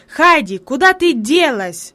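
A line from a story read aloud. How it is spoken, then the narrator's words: Sudden angry shout. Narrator (Russian): вдруг сердито крикнул он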